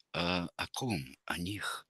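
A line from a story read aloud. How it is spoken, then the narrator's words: Whispered question. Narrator (Russian): шепотом переспрашивает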